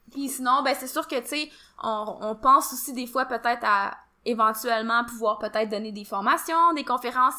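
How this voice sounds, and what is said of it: Québécois French accent. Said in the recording (French): “remarqué par ton accent qu'on n'était pas du Québec”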